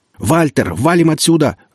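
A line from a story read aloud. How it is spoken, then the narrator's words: Yelling over radio. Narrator (Russian): заорал Игнат в переговорник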